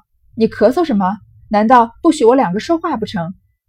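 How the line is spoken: Flustered, exasperated. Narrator (Chinese): 香莲 有一点生又气急败坏的感觉，就说

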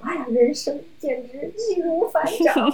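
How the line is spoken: Hearty laughter. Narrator (Chinese): 哈哈哈哈笑

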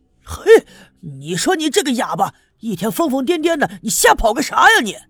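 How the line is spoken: Loud frightened scolding. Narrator (Chinese): 赵村长吓坏了，大声的呵斥

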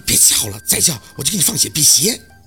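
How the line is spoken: Through gritted teeth. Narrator (Chinese): 宝四咬牙切齿

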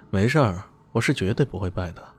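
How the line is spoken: Calm, indifferent. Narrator (Chinese): 李迅不为所动，只是淡淡的说了句

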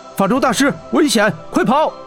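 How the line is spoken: Shouting. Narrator (Chinese): 霍真喊道

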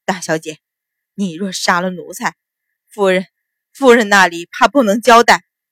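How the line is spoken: Trembling, shaking voice. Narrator (Chinese): 冯四全身簌簌发抖，却颤声道

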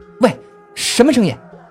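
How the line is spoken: Sudden shout. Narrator (Chinese): 宋优立刻喊了起来

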